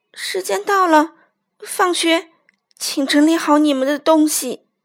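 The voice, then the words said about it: Trembling, shaky voice. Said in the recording (Chinese): “用颤抖的声音说”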